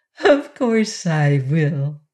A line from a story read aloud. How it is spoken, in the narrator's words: answered Polychrome with a merry laugh